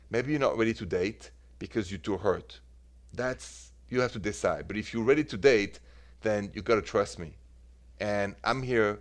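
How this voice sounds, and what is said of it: Beautiful foreign accent. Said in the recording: “I love your accent. It's always so beautiful.”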